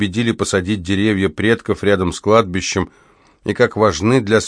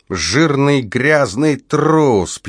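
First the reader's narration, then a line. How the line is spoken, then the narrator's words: Drunken mutter. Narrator (Russian): пьяным голосом бормотал он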